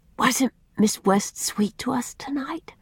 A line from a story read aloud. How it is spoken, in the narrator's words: whispered Faith in bed